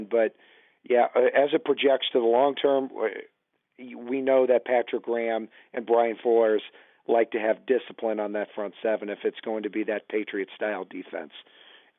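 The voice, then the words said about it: Strained voice, losing his voice. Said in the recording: “I'm losing my voice”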